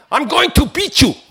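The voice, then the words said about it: Put-on South African accent. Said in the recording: “in a South African accent, which I sometimes can do if I'm in the mood”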